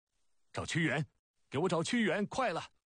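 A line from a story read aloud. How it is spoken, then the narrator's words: Frightened loud roar. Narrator (Chinese): 楚怀王越想越怕，大声吼叫起来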